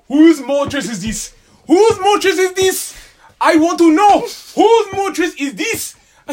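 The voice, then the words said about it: Put-on African accent. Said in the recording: “somebody gotta have the accent with it to make it more hilarious, like an African.”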